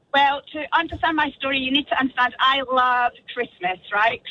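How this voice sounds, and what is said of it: Scottish accent. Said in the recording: “your amazing Scottish accent”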